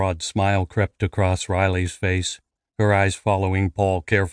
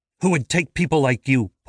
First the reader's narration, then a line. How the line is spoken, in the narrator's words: Paul spat without thinking